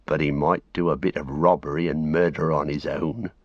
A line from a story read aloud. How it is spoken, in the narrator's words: growled Sam